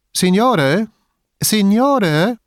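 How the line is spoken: Calling from across. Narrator (German): rief jemand vom Haus gegenüber

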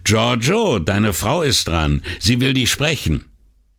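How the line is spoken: Called out. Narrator (German): der Barmann rief

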